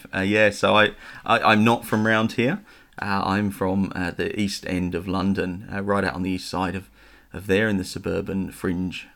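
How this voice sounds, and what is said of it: Non-local English accent. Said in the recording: “I can tell by your accent that you're not from Goulburn originally”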